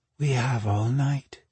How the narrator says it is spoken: she murmured

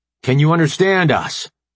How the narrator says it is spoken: AJ shouted

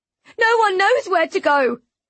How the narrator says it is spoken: she wails

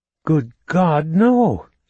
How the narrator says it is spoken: she exclaimed, in mock horror

